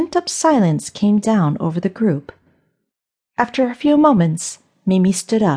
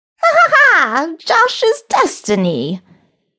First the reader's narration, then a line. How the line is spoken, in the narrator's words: Mimi said with a cackle